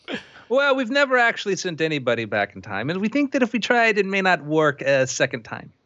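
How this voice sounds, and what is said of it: Russian-tinged foreign accent. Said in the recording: “pardon my accent. I spent time in Russia”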